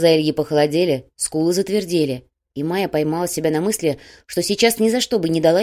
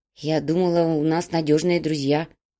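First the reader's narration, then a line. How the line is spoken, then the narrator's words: Muttered. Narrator (Russian): пробормотала переплетчица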